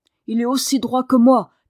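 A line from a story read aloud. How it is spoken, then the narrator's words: Shouted. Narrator (French): cria Dick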